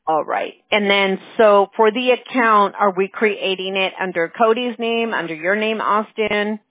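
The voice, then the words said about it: Hoarse, strained voice. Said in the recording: “I feel like I'm losing my voice already”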